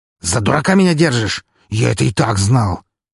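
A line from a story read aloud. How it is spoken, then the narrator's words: Angry. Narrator (Russian): зло произнес он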